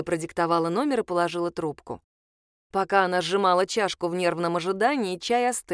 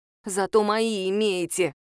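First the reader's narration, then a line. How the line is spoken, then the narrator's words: Grudging, through clenched teeth. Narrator (Russian): процедила Лиза, вспомнив, как закадровый голос якобы согласился с ее мнением об изменениях подруги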